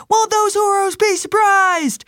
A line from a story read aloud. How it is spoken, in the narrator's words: A man called out